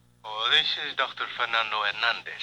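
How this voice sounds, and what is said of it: Put-on Latino accent. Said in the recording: “putting on a Latino accent”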